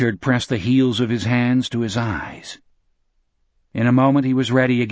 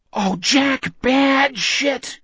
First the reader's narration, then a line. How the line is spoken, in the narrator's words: Richard moaned